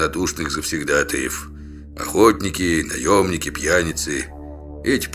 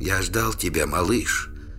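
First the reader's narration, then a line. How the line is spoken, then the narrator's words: Barely audible whisper. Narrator (Russian): еле слышно прошептал Трувор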